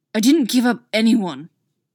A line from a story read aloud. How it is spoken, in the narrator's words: Derek snarls